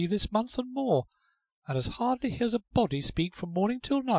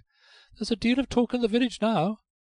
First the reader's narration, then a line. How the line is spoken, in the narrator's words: Eccles with an extensive sigh